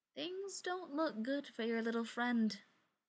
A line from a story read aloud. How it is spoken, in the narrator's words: Brendan said with a small laugh